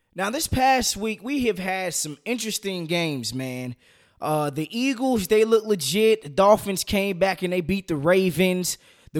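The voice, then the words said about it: Hoarse voice. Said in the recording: “excuse my voice, man. Kind of went hoarse,”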